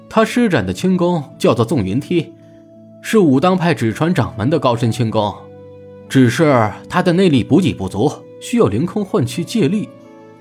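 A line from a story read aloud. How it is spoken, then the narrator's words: Smiling. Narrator (Chinese): 朱熹笑着说道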